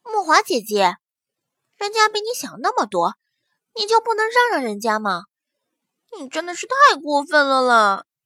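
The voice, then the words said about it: Cloying coquettish pouting voice. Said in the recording (Chinese): “让人鸡皮疙瘩掉满地的娇嗔 小声音”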